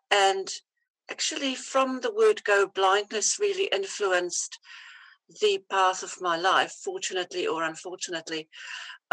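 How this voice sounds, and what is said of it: Mixed foreign English accent. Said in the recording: “my accent because it's a bit mixed”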